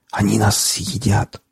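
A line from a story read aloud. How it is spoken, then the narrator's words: Prisoner whispering. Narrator (Russian): зашептал пленник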